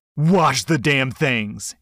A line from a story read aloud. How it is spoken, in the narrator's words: he snapped back